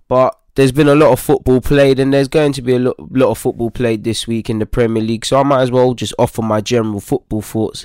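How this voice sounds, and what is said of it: Slightly sick, under-the-weather voice. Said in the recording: “As you can potentially hear from my voice, I'm kind of coming down under the weather a bit”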